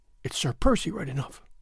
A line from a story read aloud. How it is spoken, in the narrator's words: she murmured